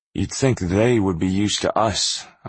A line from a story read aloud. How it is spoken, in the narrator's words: Akos said